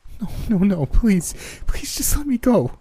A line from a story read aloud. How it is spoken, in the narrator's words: begged Megan as she choked back tears